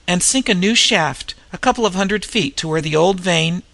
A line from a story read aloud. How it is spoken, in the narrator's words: went on Carolyn, her voice trembling between tears and laughter